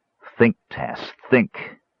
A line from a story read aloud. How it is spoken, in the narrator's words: Caramon muttered